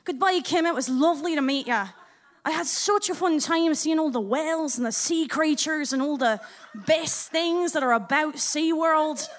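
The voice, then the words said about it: Put-on Scottish accent. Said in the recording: “do my Scottish accent”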